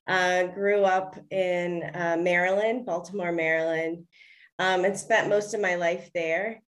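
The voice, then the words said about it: American accent. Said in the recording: “I'm from America, if you can't tell by my accent.”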